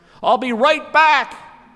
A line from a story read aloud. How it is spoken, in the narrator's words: he yelled into the silence